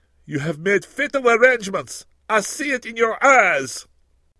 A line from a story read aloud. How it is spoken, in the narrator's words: exclaiming